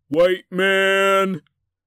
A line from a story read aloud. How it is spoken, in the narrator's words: yelled